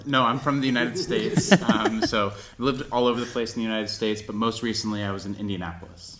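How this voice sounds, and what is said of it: Non-local, American-sounding accent. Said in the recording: “from your accents, you're not from around here”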